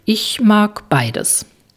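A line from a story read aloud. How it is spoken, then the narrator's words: Hesitant answer. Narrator (German): antwortet Jule zögernd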